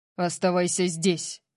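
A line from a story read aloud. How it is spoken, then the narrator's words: Growled. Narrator (Russian): прорычал он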